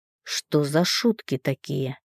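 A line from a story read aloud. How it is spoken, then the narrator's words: Father speaking through teeth. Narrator (Russian): процедил папа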